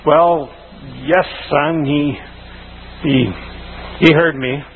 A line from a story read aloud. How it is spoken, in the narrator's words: The man stammered